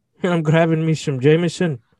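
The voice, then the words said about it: Poor Irish accent impression. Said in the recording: “that was a horrible Conor McGregor impersonation... What you actually sounded like was the Catholic priest in the movie The Quiet Man”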